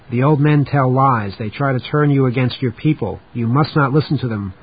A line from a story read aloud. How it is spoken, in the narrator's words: one middle-aged woman shouted